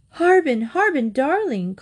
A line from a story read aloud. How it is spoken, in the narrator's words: called his mother anxiously